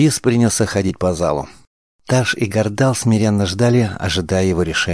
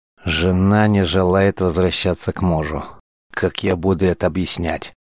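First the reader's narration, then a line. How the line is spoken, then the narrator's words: Gloomy. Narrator (Russian): Мрачно произнес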